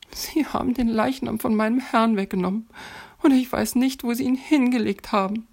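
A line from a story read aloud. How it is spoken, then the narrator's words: Sobbed. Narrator (German): schluchzte Maria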